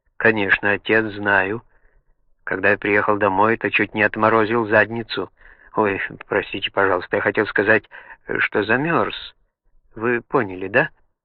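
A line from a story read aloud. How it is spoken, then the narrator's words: Timid question. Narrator (Russian): спросил Эйл робко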